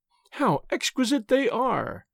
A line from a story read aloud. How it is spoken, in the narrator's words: cried Miss Clare